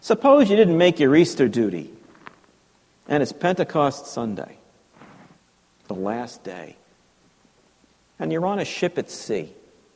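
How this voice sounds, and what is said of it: Child's voice with New York accent. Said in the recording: “like as a little kid with a New York accent. I mean, I'm trying to imitate a New York accent. I have a New York accent”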